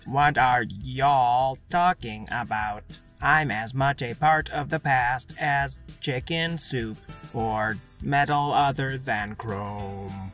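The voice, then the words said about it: Bad put-on cowboy accent. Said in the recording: “Your accent is giving you away. It's terrible.”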